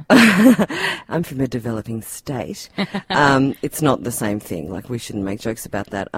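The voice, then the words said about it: Australian accent. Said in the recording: “you can probably tell from my accent that I'm not from a developing country ... Oh, Tasmania.”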